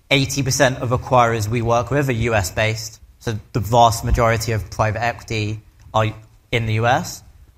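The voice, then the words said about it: English accent. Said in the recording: “I'm originally from the UK, hence the English accent”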